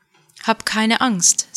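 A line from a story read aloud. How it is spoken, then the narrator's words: Plain. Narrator (German): sagte er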